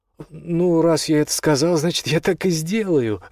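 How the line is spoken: Happy agreement. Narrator (Russian): радостно согласился Пипин

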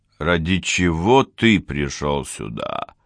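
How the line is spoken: Mutter. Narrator (Russian): пробормотал де Пальма

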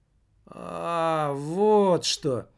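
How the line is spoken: Puzzled drawl. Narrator (Russian): протянул маркетинг, хотя совершенно не понимал

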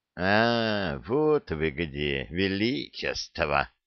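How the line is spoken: Displeased grumble. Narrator (Russian): недовольное ворчание Веркита

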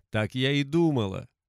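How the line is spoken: Laughing. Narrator (Russian): рассмеялась чародейка

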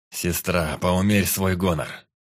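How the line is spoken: Harsh, through gritted teeth. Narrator (Russian): Жестко процедил парень

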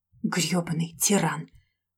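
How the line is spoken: Growl at mirror. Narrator (Russian): прорычала себе в зеркало

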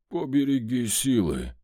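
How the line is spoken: Weak, very muffled voice. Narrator (Russian): слабый голос Вольта в голове звучал очень глухо

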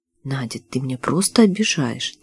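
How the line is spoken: Quiet, hurt. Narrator (Russian): тихо произнес

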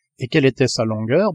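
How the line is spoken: Plain. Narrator (French): demanda le Canadien

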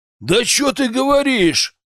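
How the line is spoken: Barked in chorus. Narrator (Russian): гаркнули они хором

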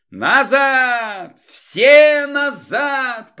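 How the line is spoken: Shouting. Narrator (Russian): прокричал он

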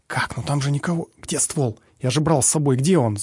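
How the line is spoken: Rapid ringing whisper. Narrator (Russian): зачастил химик звенящим шепотом

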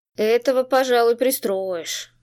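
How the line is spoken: Skeptical snort. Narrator (Russian): Скептически хмыкнул он

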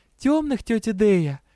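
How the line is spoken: Cheerful young woman's reply. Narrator (Russian): весело ответила девушка

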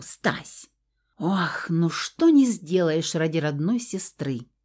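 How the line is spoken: Feigned sigh. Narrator (Russian): Вздохнула эта мелкая притворщица

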